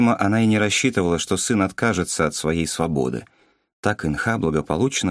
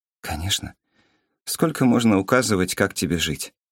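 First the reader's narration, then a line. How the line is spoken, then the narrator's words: Sighing mother. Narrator (Russian): Вздохнула мама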